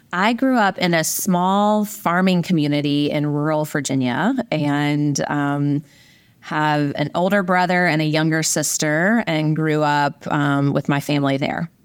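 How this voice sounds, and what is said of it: Rural Virginia accent. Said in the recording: “I guess that's where the accent comes from”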